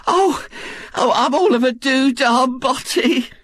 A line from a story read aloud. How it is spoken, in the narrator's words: she moaned